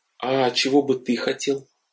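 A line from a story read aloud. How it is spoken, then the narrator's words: Timid question. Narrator (Russian): робко спросила жена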